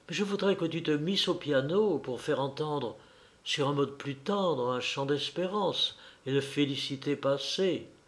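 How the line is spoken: Very soft, caressing voice. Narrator (French): elle me dit d'une voix plus douce, plus caressante que jamais

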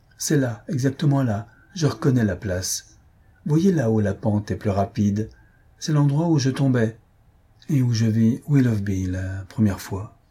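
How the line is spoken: Fairly calm. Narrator (French): elle dit, d'un ton assez calme

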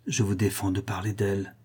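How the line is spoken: Low muffled voice. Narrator (French): fit-il d'une voix sourde

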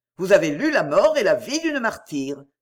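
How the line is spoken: Exclaimed. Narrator (French): s'écria Dexter

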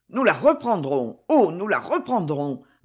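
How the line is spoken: Stammering, reckless. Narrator (French): balbutia Concini, qui, à cet instant, oublia toute prudence

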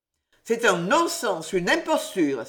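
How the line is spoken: Exclaimed. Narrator (French): s'écria M

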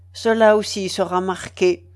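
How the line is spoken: Cold. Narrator (French): dit froidement l'ex-directeur du séminaire

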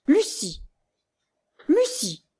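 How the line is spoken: Trembling cry. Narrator (French): s'écria Madame Augustine tremblante

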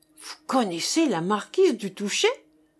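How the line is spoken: Exclamation. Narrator (French): s'exclama Jean-Jean

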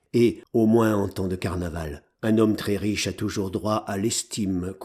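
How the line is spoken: Calm. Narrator (French): conclut d'une voix calme la belle Susanna

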